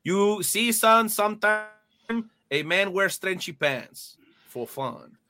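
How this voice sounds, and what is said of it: Put-on Mexican accent. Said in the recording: “I, am assuming this is in a Mexican accent”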